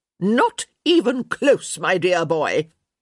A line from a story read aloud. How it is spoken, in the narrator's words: she barked